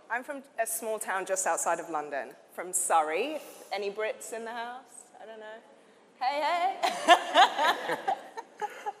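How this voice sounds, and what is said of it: English accent. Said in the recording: “you'll hear this amazing accent”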